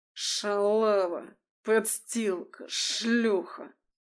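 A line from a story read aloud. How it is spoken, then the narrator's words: Menacing hiss. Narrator (Russian): шипел Бактин, нависая над хрупкой Алисой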